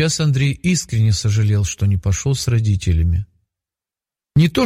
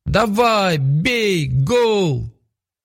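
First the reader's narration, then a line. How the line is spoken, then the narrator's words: Joyful crowd shouting. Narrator (Russian): Олег и Лилия, наоборот, веселились от души и кричали вместе со всеми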